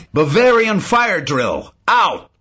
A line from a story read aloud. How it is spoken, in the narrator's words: shouted